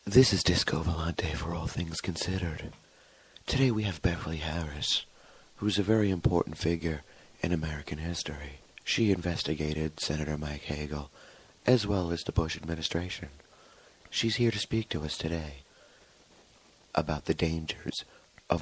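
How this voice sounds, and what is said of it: Mock NPR radio host voice. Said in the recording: “I gotta put my NPR voice on ... my NPR voice”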